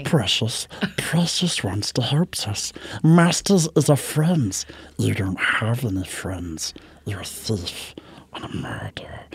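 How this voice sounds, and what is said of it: Smeagol character voice. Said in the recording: “I was Smeagol for Halloween.”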